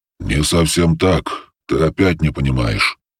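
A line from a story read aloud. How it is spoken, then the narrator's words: Annoyed sigh. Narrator (Russian): с досады вздохнул голос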